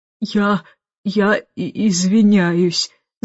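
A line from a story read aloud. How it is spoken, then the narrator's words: Stammering. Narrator (Russian): заикаясь, проговорила она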